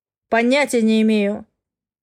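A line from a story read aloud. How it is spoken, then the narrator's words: Man's growl. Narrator (Russian): рыкнул мужчина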